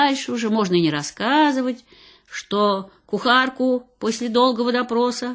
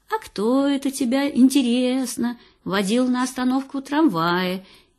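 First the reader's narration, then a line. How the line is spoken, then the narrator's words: Even more affectionate. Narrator (Russian): интересуется еще более ласково мать королева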